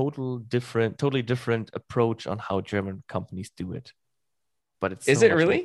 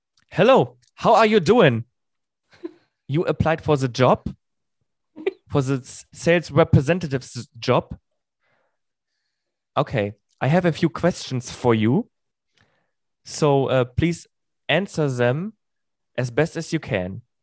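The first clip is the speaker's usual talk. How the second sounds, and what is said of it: Exaggerated German accent in English. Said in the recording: “I translate to you, in with a bad English accent. ... So it's like a bad version of Arnold Schwarzenegger.”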